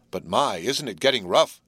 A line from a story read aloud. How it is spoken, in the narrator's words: exclaimed Will